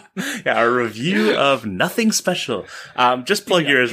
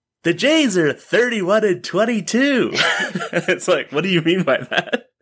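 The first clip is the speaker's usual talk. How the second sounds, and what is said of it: Imitates another person's voice. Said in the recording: “a very Norm Macdonaldonian intonation ... that's not a bad norm ... that one's solid”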